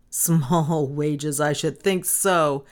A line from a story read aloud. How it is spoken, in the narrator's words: laughed the policeman